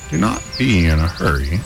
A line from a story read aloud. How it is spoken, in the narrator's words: croaked the old woman